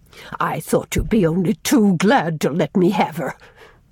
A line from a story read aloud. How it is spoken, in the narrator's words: sneered